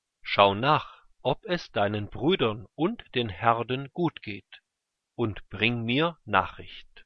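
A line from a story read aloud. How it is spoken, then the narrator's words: Plain. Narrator (German): sagte sein Vater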